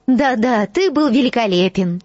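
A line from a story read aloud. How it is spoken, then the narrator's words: Cheerful. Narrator (Russian): весело ответила Гермиона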